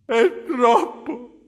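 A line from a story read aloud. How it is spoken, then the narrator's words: Sobbing. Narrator (Italian): disse singhiozzando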